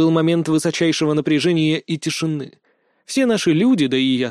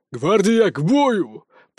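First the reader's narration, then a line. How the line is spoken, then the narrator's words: Roaring command. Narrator (Russian): проревел Богдан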